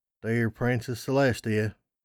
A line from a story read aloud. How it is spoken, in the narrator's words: I mumbled, still in complete shock at what I'd said